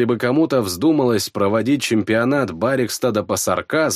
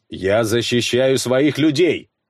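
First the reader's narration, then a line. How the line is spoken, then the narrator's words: Barked. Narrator (Russian): рявкнул я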